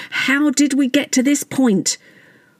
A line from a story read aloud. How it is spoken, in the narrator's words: There was almost an audible collective shout of